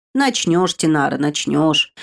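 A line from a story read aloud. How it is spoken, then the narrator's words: Grim promise. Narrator (Russian): мрачно пообещал Норт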